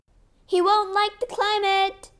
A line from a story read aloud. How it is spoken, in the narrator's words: Matt shouted